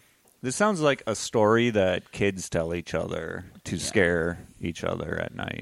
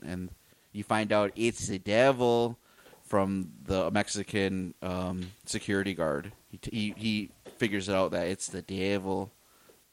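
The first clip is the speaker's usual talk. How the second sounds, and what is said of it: Bad put-on Mexican accent. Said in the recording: “I say it like that with a bad Mexican accent”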